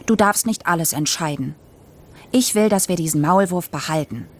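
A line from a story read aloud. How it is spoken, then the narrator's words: Stern. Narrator (German): sagte ich streng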